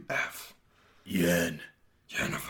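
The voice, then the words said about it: Geralt voice sliding into Batman voice. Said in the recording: “do my Geralt voice ... I turn into a Batman voice ... Rather than like a actual Geralt voice, it's like a Batman voice for me”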